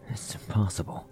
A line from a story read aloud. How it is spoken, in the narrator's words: whispered, her voice tinged with disbelief